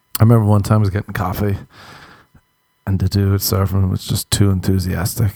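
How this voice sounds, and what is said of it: Strong, hard-to-understand accent. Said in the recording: “you know my accent, people. It's very awful to listen to and it's very hard to understand.”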